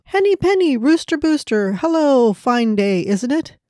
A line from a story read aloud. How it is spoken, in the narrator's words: Ducky Chucky giggled